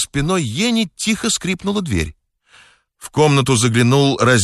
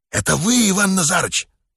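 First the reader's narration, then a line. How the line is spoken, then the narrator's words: Whispered question. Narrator (Russian): шепотом спросил Еня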